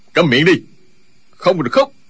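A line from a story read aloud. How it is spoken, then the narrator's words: Loud shout. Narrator (Vietnamese): Chu Trường Linh quát to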